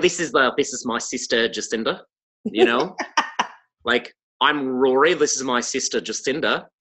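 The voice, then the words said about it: Imitated New Zealand Kiwi accent. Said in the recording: “everything just sounds nicer with a Kiwi accent... If somebody talks with a Kiwi accent... it's just a very nice person voice”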